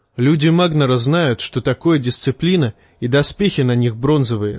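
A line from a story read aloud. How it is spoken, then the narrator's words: Plain. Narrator (Russian): сказал он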